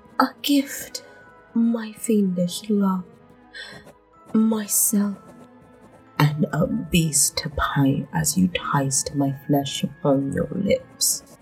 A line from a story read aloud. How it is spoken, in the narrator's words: whispered